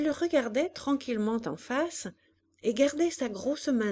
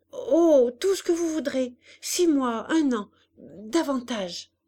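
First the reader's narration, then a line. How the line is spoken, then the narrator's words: Stammered with relief. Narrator (French): balbutia-t-il, soulagé, heureux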